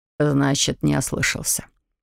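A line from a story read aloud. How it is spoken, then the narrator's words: Mumbling. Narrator (Russian): пробормотал Колхаун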